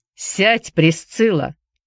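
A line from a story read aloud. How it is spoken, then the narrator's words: Sharp, demanding. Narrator (Russian): Голос хозяина дома прозвучал резко и требовательно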